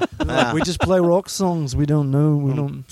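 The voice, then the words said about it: Put-on Beatles-style accent. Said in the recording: “I'm off with the accent ... That was good, though. That was a good Beatles ... Paul McCartney”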